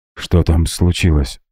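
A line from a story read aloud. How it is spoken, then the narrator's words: Hoarse question. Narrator (Russian): хрипло спросила Люси, когда прожевала шоколад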